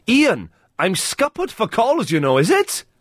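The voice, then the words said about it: Put-on Welsh accent. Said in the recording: “What sort of accent was that? ... It's Welsh, isn't it?”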